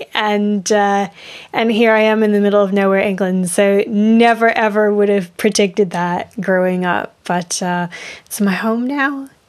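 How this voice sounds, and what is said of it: British accent. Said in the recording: “you had me fooled because I hear a British accent”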